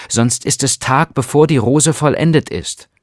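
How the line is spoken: Calling out. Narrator (German): rief er

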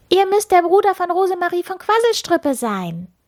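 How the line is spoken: Loud call from afar. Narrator (German): Schon von weitem rief sie laut

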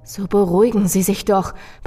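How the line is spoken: Tense pleading. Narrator (German): beschwor ich ihn mit angespannter Stimme

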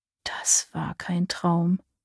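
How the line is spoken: Murmuring. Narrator (German): murmelte

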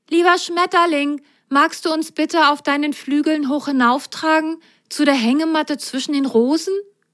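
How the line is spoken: Calling skyward. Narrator (German): Rosenrot rief in den Himmel

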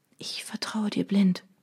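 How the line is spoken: Whispering. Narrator (German): flüsterte ich

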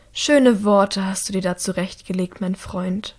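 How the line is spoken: Quiet. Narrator (German): sagt Anneka leise

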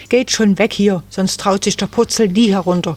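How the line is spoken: Angry shout. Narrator (German): rief Susi ärgerlich

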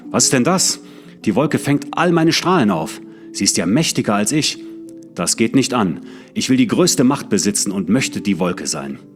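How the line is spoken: Angry shout. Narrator (German): rief er voll Zorn

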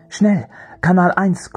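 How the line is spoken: Panting. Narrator (German): keuchte

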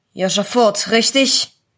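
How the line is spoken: Policeman asking, rough voice. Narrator (German): fragte der Polizist mit einer rauen Stimme

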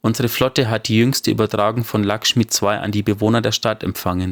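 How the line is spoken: Plain. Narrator (German): sagte sie

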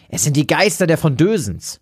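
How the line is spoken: Frightened call. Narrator (German): rief Ernst

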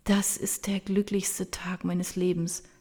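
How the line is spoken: Soft. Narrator (German): sagt sie leise

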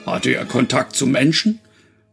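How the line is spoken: Thunderous voice. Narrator (German): wollte der Mann mit der Donnerstimme wissen

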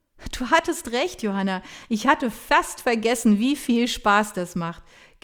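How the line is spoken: Admitted laughing. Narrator (German): gibt sie lachend zu

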